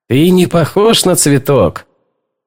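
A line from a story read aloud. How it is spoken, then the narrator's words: Laughing. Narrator (Russian): Бобби рассмеялся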